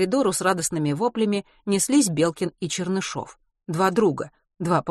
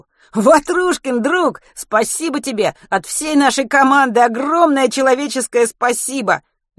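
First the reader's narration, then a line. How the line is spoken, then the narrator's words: Ecstatic overlapping yelling. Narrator (Russian): Восторженно завопили они наперебой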